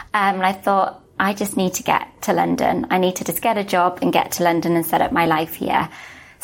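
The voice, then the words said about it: Welsh accent. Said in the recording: “I'm from Wales, you can probably tell from my accent.”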